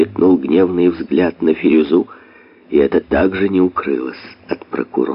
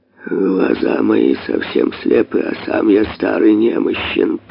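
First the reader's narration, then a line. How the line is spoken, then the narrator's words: Old man mumbling. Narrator (Russian): пробормотал старик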